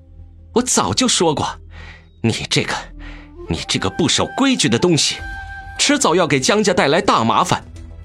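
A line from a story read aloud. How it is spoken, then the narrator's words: Through gritted teeth. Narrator (Chinese): 于夫人咬牙切齿道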